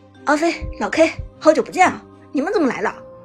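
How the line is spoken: Happy shout. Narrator (Chinese): 苏哲开心的喊道

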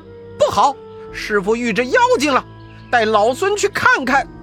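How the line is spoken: Alarmed shout. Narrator (Chinese): 悟空…慌忙叫道

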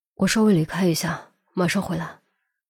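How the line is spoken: Low voice. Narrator (Chinese): 低声说

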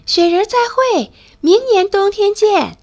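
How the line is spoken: Loud shout. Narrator (Chinese): 大声喊

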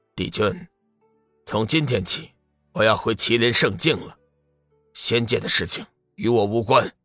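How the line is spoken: Cool, detached. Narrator (Chinese): 麒麟令使 淡淡的 道

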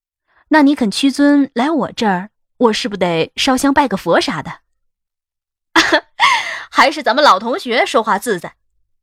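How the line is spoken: Laughing. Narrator (Chinese): 我笑道

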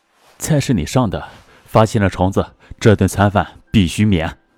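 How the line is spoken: Low voice after silence. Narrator (Chinese): 沉默许久，低声说

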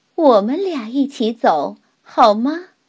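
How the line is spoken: Smiling, gentle. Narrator (Chinese): 乌拉老师对她微笑着说

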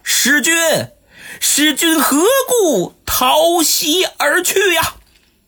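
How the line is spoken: Shouting. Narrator (Chinese): 蔡瑁这嘴上喊着

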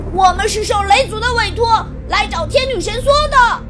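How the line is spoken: Hurried loud shout. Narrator (Chinese): 蓝小瑞忙高喊道

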